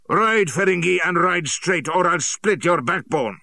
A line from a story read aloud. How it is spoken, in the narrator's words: Shere Khan roared in my ear